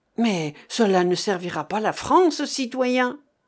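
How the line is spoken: Sudden cry from dark cave. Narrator (French): s'écria brusquement une voix venant du fond de la grotte où régnait une obscurité complète

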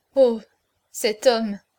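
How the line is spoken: Stammering through tears. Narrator (French): balbutia-t-elle parmi ses pleurs

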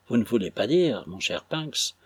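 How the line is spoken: Very grave tone. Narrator (French): demanda Clennam d'un ton très grave

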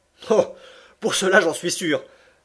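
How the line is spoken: Laughing exclamation. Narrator (French): s'écria Passepartout riant de plus belle

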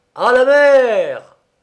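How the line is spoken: Sudden thundering voice. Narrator (French): Tout à coup, une voix tonna

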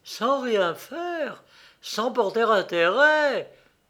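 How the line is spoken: Crying out. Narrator (French): s'écrie-t-elle

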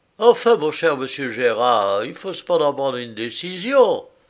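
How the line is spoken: Exclaiming. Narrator (French): s'écria monsieur Tardoire

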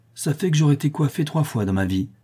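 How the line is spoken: Widow's sinister sneer. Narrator (French): dit la veuve avec un ricanement sinistre

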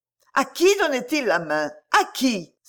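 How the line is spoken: Exclaimed. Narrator (French): s'écria Camilla

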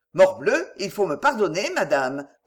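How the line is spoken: Cold protest. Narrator (French): protesta-t-il froidement

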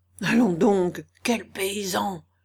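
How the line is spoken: Whispering. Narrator (French): lui dit aussi tout bas Tchitchikov

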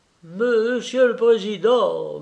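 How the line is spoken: Timid stammering. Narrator (French): balbutia Dominique sans oser lever les yeux

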